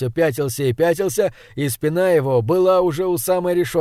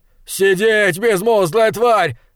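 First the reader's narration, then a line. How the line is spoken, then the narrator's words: Roared. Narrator (Russian): взревел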